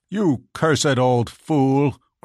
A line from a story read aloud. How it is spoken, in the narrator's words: cried the young knight